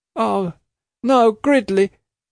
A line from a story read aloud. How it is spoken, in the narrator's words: she cried